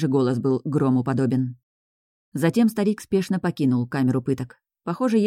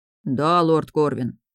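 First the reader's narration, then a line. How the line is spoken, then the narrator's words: Deep bass voice. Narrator (Russian): пробасил Рон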